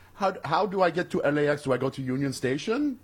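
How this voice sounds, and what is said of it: Generic put-on Iranian accent. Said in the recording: “Is that your Iranian accent? ... my, my generic.”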